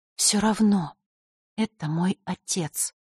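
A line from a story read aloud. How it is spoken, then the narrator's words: Quiet. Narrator (Russian): тихо произнесла Василиса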